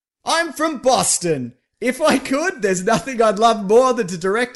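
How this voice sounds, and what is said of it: Imitates another person's voice, Boston accent. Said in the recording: “my Ben Affleck voice ... impression ... a substitute for a Boston accent”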